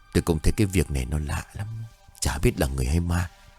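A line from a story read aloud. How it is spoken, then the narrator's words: Low musing voice. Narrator (Vietnamese): ông bá hạ giọng nói như tự hỏi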